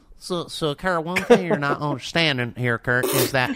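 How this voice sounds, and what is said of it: Imitates another person's voice. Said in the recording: “I'll speak as Bobby. As what Bobby's going to say... I'll do my Bobby impression.”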